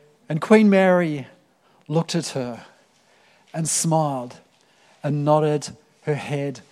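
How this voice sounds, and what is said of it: Usual voice. Nothing is said of it.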